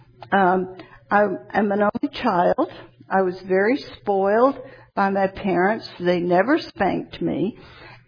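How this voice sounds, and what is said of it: Atlanta accent. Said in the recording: “I was born in Atlanta. You probably can tell by my accent.”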